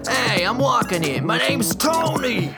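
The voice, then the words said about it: Brusque New York accent. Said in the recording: “some brusque New Yorker”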